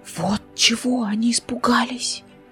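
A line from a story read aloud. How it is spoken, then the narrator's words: Whispered. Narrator (Russian): прошептала Повелевса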